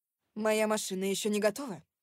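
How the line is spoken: Female barking. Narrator (Russian): рявкнула я на парковщика

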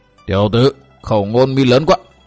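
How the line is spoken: Menacing growl. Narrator (Vietnamese): trợn mắt đỏ ngầu, gằn giọng nói

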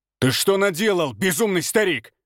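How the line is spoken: Shout. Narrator (Russian): выкрикнул мастер

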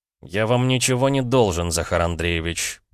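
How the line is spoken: Through gritted teeth. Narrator (Russian): процедил парень

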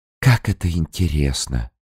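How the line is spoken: Barely audible babbling. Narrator (Russian): чуть слышно пролепетала Рос

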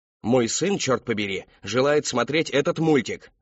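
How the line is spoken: Man yelling. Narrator (Russian): орал какой-то мужчина

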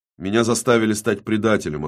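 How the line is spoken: Plain. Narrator (Russian): ответила голова

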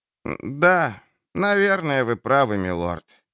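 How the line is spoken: Sighing. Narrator (Russian): вздохнул Луис

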